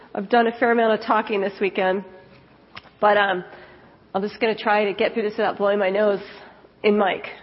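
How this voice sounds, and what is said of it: Stuffy voice with a cold. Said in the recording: “I have a little bit of a cold,”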